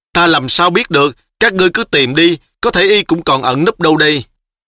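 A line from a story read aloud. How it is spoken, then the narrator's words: Tearful whimpering. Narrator (Vietnamese): Tiêu Đại Hổ giống như muốn khóc, mếu máo nói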